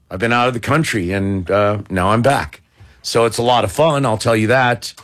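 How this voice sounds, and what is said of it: Worn-out, strained voice. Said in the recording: “my voice is hurting ... worn-out voice”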